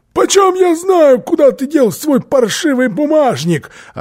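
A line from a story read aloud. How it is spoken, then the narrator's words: Shouted. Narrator (Russian): Филли закричал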